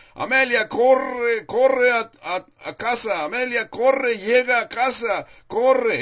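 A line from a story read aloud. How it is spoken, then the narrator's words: Group shouting. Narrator (Spanish): sus compañeros le gritaban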